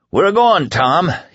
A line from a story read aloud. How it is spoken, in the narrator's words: he bellowed